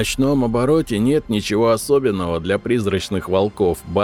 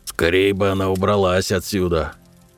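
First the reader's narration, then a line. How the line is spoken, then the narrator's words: Reluctant grumbling. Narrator (Russian): Ворчал я, нехотя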